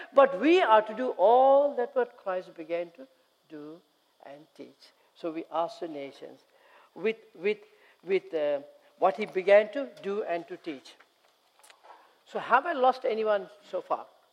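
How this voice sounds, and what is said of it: Sri Lankan English accent. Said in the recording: “See, I talk Sri Lankan. ... some of you might find it difficult to understand my accent.”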